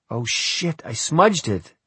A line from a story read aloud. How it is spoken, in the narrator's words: she cried